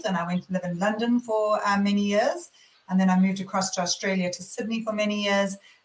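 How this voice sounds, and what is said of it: South African accent. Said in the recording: “many of your listeners may or may not recognize my accent, but I am actually born and bred in South Africa”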